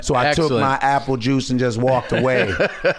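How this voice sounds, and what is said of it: Paul Mooney impression. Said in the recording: “That's an excellent impression. You are really good at impressions ... you're Paul Mooney, you sound like him too”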